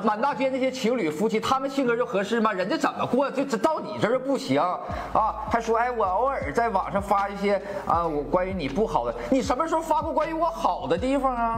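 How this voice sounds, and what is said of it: Northeastern Chinese accent, humorous-sounding. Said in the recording (Chinese): “这个口音 ... 这个东北口音就自带一些幽默的感觉，喜感”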